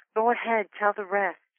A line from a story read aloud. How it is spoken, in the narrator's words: she whispered encouragingly to her husband